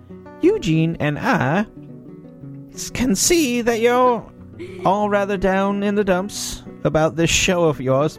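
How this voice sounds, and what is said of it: Put-on accent that drifts. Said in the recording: “My accent was changing as I was talking.”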